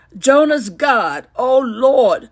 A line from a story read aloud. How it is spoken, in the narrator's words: they pleaded